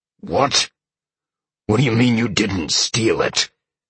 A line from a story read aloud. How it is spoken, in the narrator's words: Sean snarled